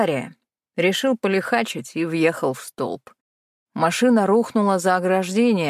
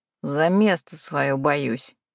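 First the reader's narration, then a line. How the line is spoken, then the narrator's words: Snorting chuckle. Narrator (Russian): хмыкнул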